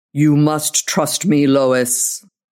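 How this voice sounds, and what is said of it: Deep creature voice. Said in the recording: “The deep voice sent a little thrill up her spine.”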